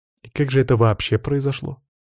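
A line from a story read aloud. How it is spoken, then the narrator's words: Tired sighing question. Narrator (Russian): устало выдохнув, спросила Бьянка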